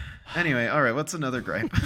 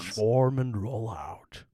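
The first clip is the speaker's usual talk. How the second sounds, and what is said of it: Optimus Prime impression. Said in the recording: “It's pretty decent Optimus Prime, huh?”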